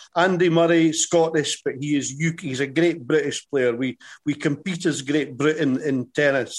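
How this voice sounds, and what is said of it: Scottish accent. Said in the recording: “a brilliant Scottish accent”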